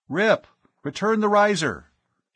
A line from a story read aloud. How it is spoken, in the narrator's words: he spoke urgently into the throat mic of his helmet comm